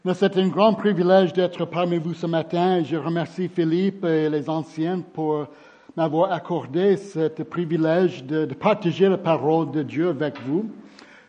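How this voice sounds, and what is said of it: Southern French Marseille accent. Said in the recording (French): “mon accent, je suis de Marseille”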